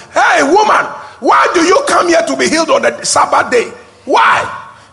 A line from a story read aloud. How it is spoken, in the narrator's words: the people who were in the area started screaming and shouting